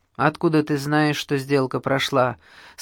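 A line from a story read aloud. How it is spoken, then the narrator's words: Plain. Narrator (Russian): спросил, наконец, Винник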